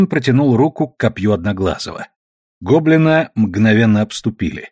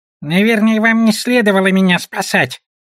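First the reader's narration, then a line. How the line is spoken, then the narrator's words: Squeaky goblin. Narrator (Russian): пискнул гоблин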